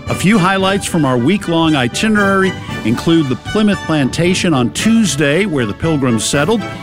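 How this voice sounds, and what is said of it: Boston accent. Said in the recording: “That's right, it's a Boston accent.”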